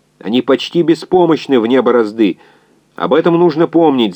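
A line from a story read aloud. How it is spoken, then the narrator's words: Yelled over noise. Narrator (Russian): заорал инженер, перекрывая свист и звон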